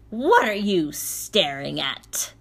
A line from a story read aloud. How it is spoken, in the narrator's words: barked Baba Yaga